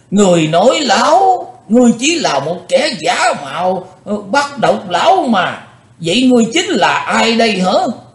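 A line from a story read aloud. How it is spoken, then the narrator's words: Angry old man shouting. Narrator (Vietnamese): Lão nhân già giận dữ quát lên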